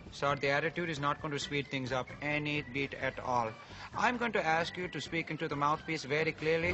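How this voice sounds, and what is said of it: Stereotypical Indian accent. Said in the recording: “It's an Indian operator ... stereotypical like Indian customer service”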